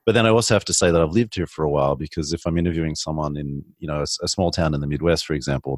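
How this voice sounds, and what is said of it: Australian accent. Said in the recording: “I have to point out my accent. ... a lot of people do like Australians”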